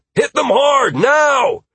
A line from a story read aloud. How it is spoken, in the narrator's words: Yelling at the top of my lungs